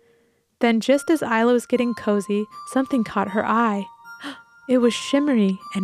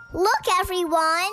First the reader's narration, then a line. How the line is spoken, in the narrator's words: she shouted